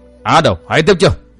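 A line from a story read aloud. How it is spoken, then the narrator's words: Hurried loud shout. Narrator (Vietnamese): Hắn vội lớn tiếng quát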